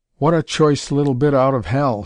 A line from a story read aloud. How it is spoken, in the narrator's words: he exclaimed